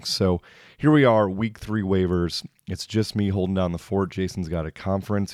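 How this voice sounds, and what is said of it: Rough, strained voice. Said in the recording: “My voice is awful. ... I sang too much”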